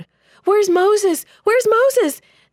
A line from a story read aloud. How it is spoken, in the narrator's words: the people wailed